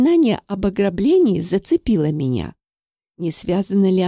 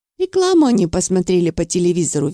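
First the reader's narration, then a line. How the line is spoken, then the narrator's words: Cheerful. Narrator (Russian): весело сказал Валерий Игнатьевич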